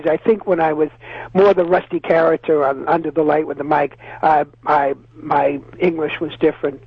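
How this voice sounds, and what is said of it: Boston accent. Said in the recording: “your accent is pure Boston all the way”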